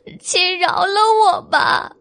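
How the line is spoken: Crying plea. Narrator (Chinese): 小白兔也哭道

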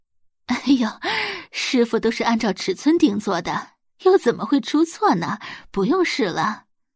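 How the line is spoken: Laughing. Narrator (Chinese): 周磊笑着道

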